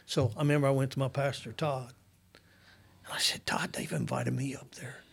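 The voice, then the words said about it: Southern Illinois rural accent. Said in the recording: “I'm Southern Illinois boy. You can tell by my accent. I ain't from Chicago.”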